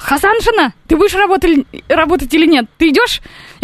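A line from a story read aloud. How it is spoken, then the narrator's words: Shouting. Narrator (Russian): он кричал, он все время кричал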